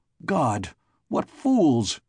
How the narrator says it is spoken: cried Prester Klieg

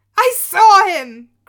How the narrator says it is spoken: cried the daughter through her tears

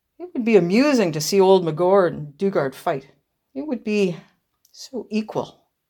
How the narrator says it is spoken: Pierre, who laughed still a little more, said

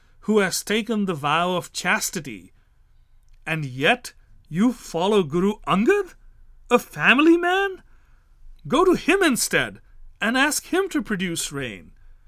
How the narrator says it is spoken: thundered

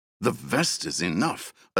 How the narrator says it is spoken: Atara growled

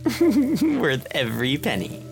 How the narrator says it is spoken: giggled Marlia

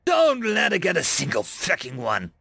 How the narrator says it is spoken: I growled

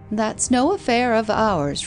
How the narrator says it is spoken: replied the nurse cheerfully

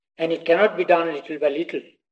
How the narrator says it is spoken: mother said

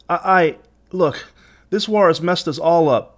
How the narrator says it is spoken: begged Asa

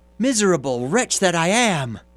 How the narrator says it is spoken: the carter again cried out

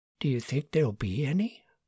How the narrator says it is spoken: Margaret whispered

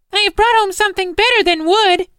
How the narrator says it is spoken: cried the child

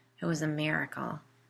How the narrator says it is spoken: Molly said, almost sarcastically

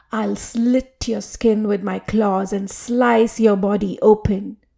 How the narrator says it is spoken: Arbutha threatened Punyakoti with a roar

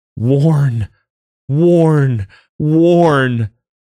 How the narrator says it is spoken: the woman opened her mouth and screamed

